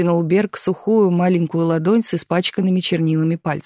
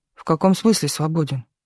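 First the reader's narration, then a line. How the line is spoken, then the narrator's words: Grumbling mutter. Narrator (Russian): буркнул Мартынов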